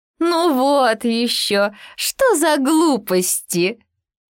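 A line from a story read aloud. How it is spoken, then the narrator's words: Hare guffawing. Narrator (Russian): захохотала зайчиха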